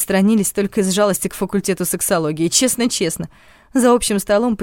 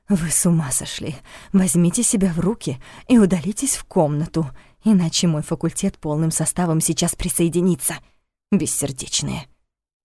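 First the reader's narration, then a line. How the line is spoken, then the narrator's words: Breathy whisper in ear. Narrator (Russian): Ашк почти в самое ухо с придыханием прошептал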